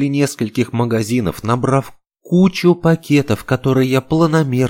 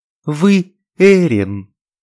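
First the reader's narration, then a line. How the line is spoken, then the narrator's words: Joyful exclamation. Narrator (Russian): радостно воскликнула она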